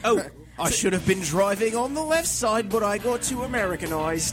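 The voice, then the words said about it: Bad put-on Australian accent. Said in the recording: “You're kind of doing an Australian accent ... pretty ... Awful.”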